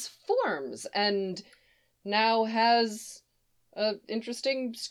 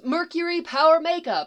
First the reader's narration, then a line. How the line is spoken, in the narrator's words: Haku shouts